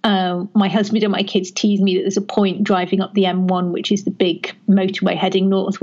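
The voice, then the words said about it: Generically educated English accent, faint Northern vowels. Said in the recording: “I used to sound Northern ... he can still hear Northern vowels ... I just sound generically educated, a bit posher than I am.”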